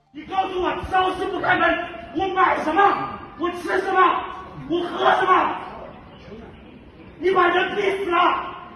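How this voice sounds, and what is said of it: Loud, angry shouting in Shanghainese. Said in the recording (Chinese): “高声用上海话愤怒地质问”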